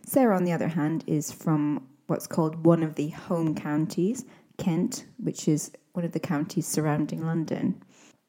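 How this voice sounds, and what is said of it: Mixed British accent, slightly Scottish. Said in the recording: “my accent is a bit of a mix of different influences. Sometimes it's a bit hard to place, but I think you can hear some Scottishness in there”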